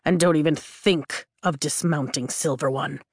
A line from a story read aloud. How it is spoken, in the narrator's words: Taryn growls